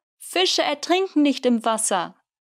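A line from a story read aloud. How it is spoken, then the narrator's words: Optimistic call back. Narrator (German): Eugen rief ihm optimistisch zurück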